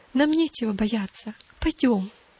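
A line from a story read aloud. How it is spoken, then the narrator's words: Gentle, tender. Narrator (Russian): ласково подняла ее, говоря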